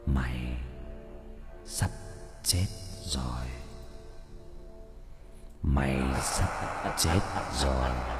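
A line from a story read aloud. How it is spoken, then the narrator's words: Man whispering, laughing close. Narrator (Vietnamese): tiếng cười của một người đàn ông ghé sát vào tai mình, thì thầm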